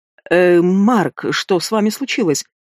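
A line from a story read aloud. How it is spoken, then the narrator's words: Strained, suppressing laughter. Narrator (Russian): С трудом выдавил из себя, борясь с приступом смеха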